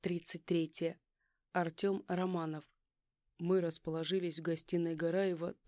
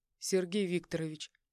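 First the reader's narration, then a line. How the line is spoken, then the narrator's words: Cold call. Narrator (Russian): Холодно окликнул я его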